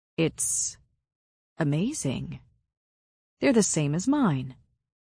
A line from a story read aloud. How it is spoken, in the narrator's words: murmur